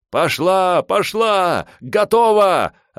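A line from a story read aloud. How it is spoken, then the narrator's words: Workers yelling. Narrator (Russian): орали рабочие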